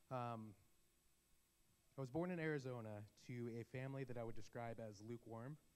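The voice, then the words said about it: Voice not at full strength. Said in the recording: “My voice isn't 100% today, so bear with me”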